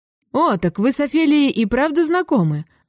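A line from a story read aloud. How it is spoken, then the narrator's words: Cheerful. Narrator (Russian): Аарон весело продолжил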